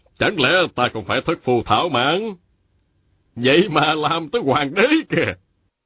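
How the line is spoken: Laughing, loud and confident. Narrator (Vietnamese): Lý Tự Thành cười lớn, rồi dõng dạc nói

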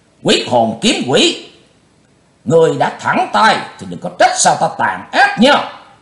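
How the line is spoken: Loud shout. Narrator (Vietnamese): Lão cục tay lúc này quát lớn

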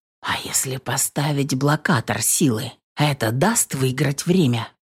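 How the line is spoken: Muttered aloud. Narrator (Russian): Слух пробормотал я

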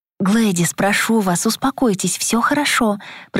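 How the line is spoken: Fervent whisper. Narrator (Russian): прошептала я горячо

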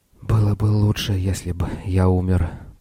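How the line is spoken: Whisper. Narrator (Russian): прошептал Церон

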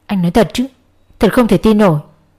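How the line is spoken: Slightly cracking voice. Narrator (Vietnamese): Cô nói với giọng hơi lạc đi

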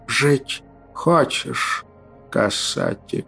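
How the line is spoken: Weak wheezing croaking whisper. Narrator (Russian): раздался слабый свистящий каркающий шепот

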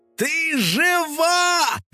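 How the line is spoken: Joyful yell. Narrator (Russian): завопил домовой

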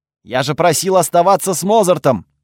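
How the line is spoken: Barked. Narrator (Russian): рявкнул я на девушку

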